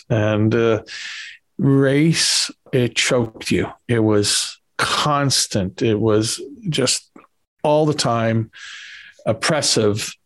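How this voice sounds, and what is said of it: New York Bronx accent. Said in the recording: “as you can tell by my accent, growing up in New York City in the Bronx”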